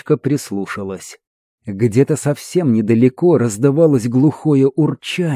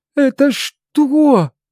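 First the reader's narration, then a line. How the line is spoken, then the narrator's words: Trembling question. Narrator (Russian): дрожащим голосом спросила Калет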